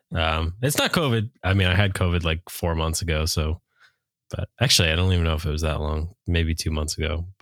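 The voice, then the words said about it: Deep, stuffy-nosed voice. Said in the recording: “Darth Vader with the stuffy nose over here ... he sounds like Night Lovell right now ... with a very deep voice”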